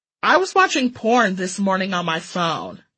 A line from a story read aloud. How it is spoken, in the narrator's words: I scoffed